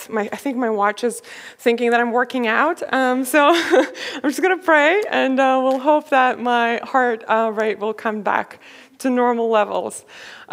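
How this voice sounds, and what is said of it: Out of breath, breathy speech. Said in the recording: “I'm out of breath.”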